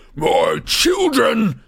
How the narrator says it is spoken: he bellowed

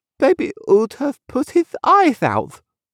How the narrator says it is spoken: lisped the little girl

